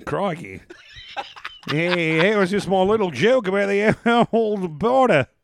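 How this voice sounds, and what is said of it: Good put-on Australian accent. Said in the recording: “I can sort of do an Australian accent ... You do a really good Australian accent.”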